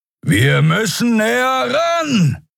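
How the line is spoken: Shouting over wind. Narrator (German): rief Kero über den heulenden Fahrtwind

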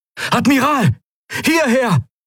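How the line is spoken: Unfamiliar voice calling. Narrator (German): rief eine fremde Stimme

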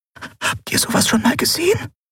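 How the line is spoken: Breathy whisper. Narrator (German): hauchte Nelen

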